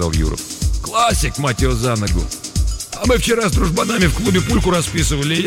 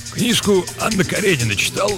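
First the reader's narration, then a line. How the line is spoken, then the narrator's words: Plain. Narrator (Russian): спросил Юров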